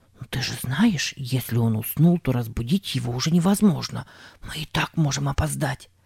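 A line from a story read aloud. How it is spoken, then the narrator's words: Rapid whisper. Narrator (Russian): скороговоркой прошептал Сэм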